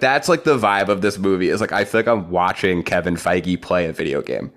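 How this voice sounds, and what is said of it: Usual voice. Nothing is said of it.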